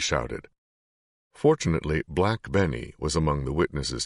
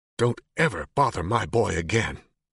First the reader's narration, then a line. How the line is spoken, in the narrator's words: spat, still furious